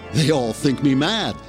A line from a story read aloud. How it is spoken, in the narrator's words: the man giggled